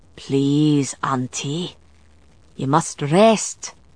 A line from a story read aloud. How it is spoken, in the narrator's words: Galloglass murmured with concern